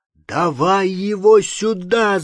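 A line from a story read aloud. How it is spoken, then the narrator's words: Shouting. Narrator (Russian): закричал он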